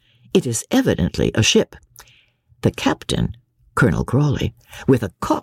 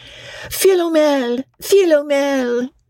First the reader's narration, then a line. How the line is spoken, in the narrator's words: cries the old woman